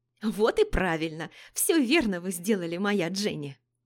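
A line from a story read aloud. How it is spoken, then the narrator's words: Chuckling nanny. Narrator (Russian): хохотнула няня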